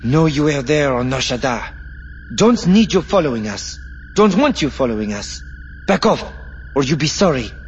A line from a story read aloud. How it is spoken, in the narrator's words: After a moment's hesitation, Tefith took a deep breath, then blurted out